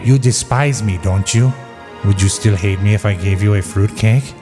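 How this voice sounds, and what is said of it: Peter Lorre impression. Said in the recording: “Lorre.”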